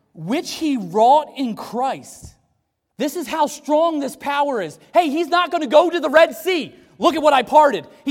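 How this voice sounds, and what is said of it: Shouting. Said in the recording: “I'm sorry I'm shouting at you too”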